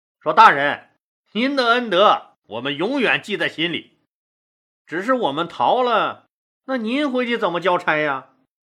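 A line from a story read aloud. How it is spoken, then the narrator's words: Wry laugh. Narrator (Chinese): 刘邦苦笑一声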